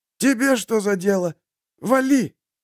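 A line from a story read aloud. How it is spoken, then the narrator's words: Hoarse voice. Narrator (Russian): Голос самого Фридриха звучал сипло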